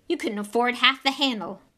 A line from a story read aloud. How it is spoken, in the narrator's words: snapped Malfoy